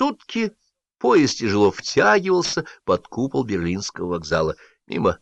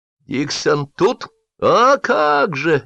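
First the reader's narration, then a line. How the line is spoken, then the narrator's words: Cheerful shouts from crowd. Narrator (Russian): весело кричали из толпы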